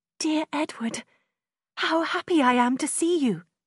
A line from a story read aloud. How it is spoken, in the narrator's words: she cried, smiling